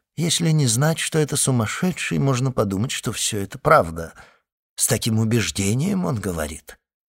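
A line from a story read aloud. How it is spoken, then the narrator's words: Low voice. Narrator (Russian): сказал инспектор вполголоса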